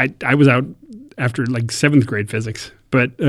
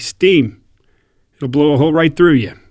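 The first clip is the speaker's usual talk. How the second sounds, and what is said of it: Imitates a teacher's distinctive accent. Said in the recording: “He had this great accent, talked like this the whole time.”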